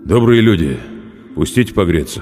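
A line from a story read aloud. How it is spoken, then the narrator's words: Muffled, hunter. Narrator (Russian): Охотник глухо сказал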